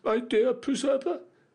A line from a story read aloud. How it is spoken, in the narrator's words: exclaimed the young lady